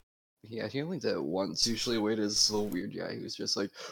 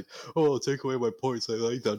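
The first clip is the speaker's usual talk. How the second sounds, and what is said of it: Imitates another person's voice. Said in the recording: “Was that your Wade impression? ... Yeah, it sounds nothing like him.”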